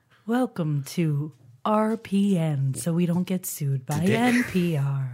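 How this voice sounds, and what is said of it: Public radio announcer voice. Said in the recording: “This is my NPR voice.”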